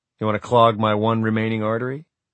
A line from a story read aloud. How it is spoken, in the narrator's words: He laughed